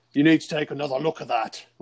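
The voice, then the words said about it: Attempted South African accent, Sean Connery-like. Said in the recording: “I can't do a South African accent. ... That was good Sean Connery, though.”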